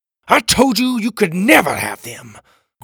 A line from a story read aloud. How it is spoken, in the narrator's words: Graham roared